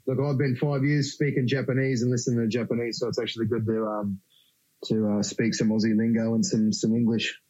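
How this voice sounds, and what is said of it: Australian accent. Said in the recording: “I don't think you've lost your accent, mate”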